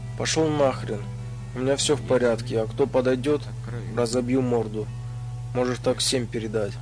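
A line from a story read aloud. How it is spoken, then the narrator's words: Through gritted teeth. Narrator (Russian): сквозь зубы сказал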